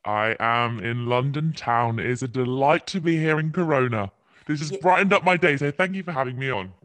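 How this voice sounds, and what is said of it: English accent from England. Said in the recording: “if you guys cannot tell by ... accent, ... is from England.”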